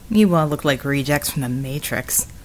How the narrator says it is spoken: Red muttered

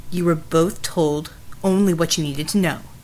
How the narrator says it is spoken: Jack said curtly

